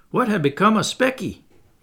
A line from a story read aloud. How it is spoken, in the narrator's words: a herd passed with sheep and disturbed me somewhat by asking loudly